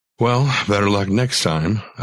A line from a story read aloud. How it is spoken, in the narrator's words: I sighed